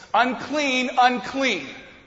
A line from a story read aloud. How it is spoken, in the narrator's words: a leper would have to cover his mouth and yell in a loud voice